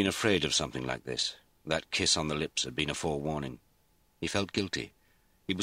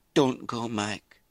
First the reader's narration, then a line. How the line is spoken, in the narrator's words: she pleaded